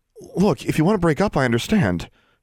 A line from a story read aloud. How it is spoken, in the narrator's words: she blurted out